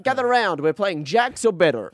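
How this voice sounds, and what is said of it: Put-on American casino-style accent. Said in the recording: “That accent. ... are you American? ... you sound casino-y.”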